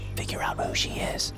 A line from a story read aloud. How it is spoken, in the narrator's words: he whispered